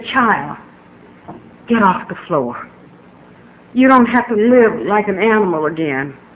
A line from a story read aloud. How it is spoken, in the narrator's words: God just kissed me gently and said